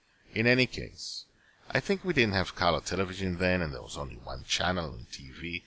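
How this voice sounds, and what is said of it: Slight foreign accent in English. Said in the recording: “I was living in Israel, and did not speak English at the time. You may have noticed my slight accent.”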